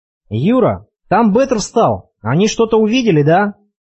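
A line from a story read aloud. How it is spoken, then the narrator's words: Alarmed yelling. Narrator (Russian): Откровенно тревожно заорал Олег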